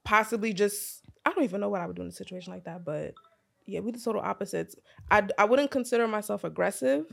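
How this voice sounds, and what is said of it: New York accent. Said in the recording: “she mad aggressive just the way how you talk ... the accent. ... It's the accent. ... Just being raised in New York, like that's just how it is. Like that's just how we talk.”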